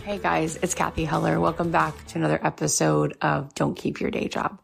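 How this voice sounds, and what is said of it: Slightly scratchy voice. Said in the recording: “my voice sounds a little scratchy... There's been a lot of big tears over the last few weeks.”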